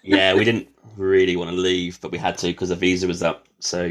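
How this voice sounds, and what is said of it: British accent. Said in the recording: “I definitely hear the accent. So the UK”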